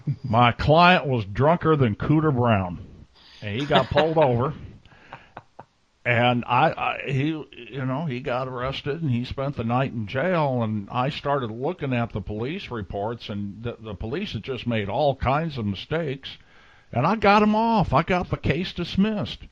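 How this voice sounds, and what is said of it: Imitation of another man's voice. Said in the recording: “that's a little bit how Joey sounds. Not the best imitation in the world, but you get the idea.”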